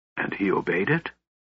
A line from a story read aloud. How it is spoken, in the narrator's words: Raistlin asked, his voice as soft as the murmuring water of the ancient river